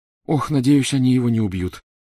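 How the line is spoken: Moaning. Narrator (Russian): застонала Гермиона

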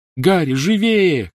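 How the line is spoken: Shouted. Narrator (Russian): крикнула Гермиона

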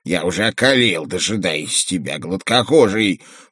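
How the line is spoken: Grumbling underground dweller. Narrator (Russian): проворчал одноглазый подземный житель

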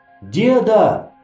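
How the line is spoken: Yelling. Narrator (Russian): завопил я

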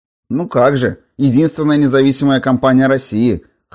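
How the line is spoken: Wry snort. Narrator (Russian): хмыкнула Лолка

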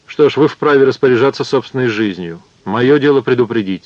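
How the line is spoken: Plain. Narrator (Russian): сказал он

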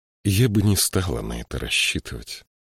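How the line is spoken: Gloomy reply. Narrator (Russian): мрачно ответила Мириамель

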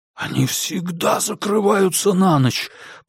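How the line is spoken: Hissing. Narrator (Russian): прошипел Диккенс в ответ

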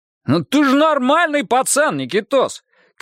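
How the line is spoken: Shouting after someone. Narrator (Russian): крикнул ему в спину сержант Монахов

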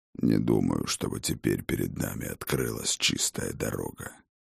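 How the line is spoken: Muttering. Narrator (Russian): пробормотал Хрофт

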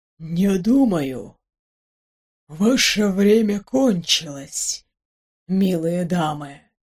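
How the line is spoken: Familiar husky voice. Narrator (Russian): раздался знакомый голос с характерной хрипотцой

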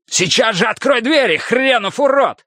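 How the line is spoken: Shouting. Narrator (Russian): закричал Хардвик

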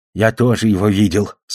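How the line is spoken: Plain, old fish. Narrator (Russian): сказал старик рыба

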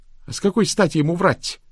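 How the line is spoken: Nearly shouted. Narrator (Russian): почти крикнула Рэйчел

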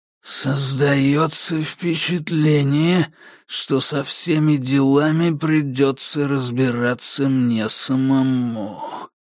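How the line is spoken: Hissing corpse. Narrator (Russian): прошипел труп Каджея Конгдона

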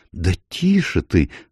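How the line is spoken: Exclaimed. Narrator (Russian): воскликнула танцовщица

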